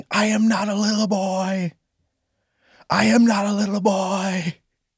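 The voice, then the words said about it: Screaming. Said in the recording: “I'm screaming”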